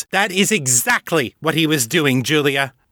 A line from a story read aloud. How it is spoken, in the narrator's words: Hal snapped